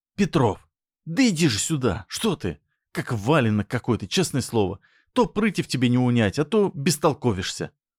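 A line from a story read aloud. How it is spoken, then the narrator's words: Hissing. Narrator (Russian): Зашипела жаба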